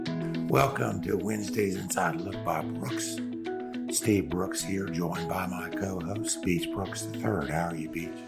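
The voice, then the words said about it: Hoarse, strained voice. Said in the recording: “I'm struggling a little bit with my laryngitis ... sounds like your voice is better than mine.”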